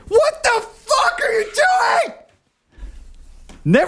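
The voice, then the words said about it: Yelling angrily. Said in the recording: “I'm yelling.”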